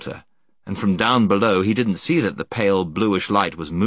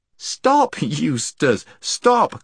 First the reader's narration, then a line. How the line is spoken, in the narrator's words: cried Jill